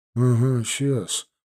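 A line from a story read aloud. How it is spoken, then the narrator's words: Grumbling. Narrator (Russian): пробурчал Пинчук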